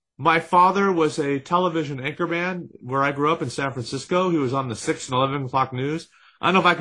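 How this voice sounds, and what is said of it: Usual voice. Nothing is said of it.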